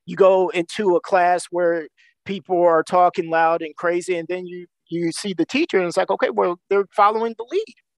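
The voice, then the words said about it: Slight East Coast American accent. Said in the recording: “got this like East Coast accent that peeks out every once in a while”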